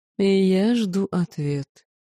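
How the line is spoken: Purring. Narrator (Russian): промурлыкал золотой жрец

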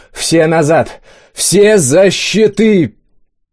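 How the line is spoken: Childlike yell, wounded man. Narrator (Russian): По-детски заорал первый раненый

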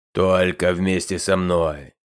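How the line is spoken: Stern voice. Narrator (Russian): Вновь суровым голосом ставил Хаттаж

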